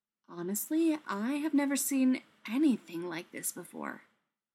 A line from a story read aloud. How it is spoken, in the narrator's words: Taylor said quietly